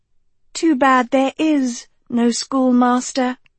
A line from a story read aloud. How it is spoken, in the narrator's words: Sophie purred